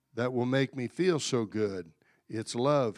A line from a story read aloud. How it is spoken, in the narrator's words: whispered softly